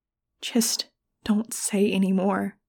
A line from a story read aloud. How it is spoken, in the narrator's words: I whispered